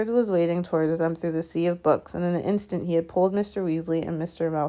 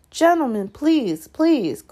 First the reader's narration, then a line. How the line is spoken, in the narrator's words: cried the assistant